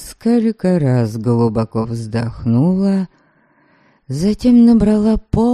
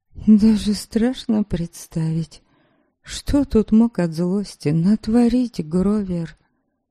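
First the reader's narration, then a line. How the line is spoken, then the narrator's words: Apologetic. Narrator (Russian): извиняющимся тоном проговорила я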